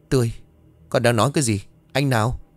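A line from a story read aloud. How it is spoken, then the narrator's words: Slightly trembling voice. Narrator (Vietnamese): Giọng đã có phần run rẩy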